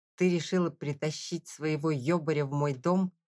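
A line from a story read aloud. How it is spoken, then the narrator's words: Growl. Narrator (Russian): прорычал я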